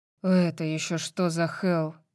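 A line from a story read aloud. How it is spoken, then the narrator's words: Muttered. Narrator (Russian): Пробормотал он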